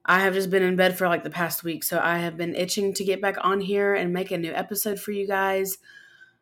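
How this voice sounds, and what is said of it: Slightly rough, not-yet-normal voice. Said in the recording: “I have been super sick for like the past week, so my voice is getting better. It's not perfect”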